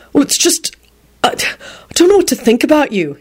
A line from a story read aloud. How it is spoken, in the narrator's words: he blurted out in a bewildered voice